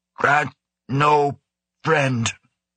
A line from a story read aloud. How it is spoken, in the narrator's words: the gorilla rasped again